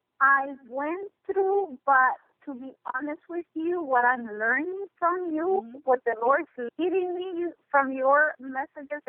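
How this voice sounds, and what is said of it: Slight foreign accent. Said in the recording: “I know I picked up a little accent there.”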